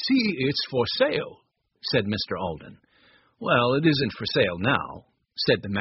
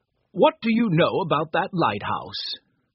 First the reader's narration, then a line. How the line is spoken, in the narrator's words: laughed and said